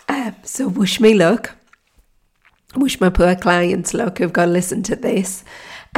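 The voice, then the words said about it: Hoarse, croaky voice. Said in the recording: “as you can hear, my voice is horrific ... fingers crossed I won't be croaking on the next episode”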